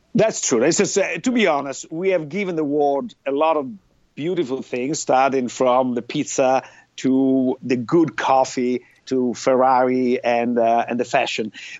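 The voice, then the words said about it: Italian accent. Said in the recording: “you're from Italy. That's pretty clear from your accent.”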